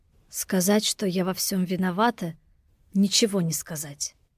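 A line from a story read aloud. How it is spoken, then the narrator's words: Choked whisper. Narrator (Russian): прошептала я сдавленным голосом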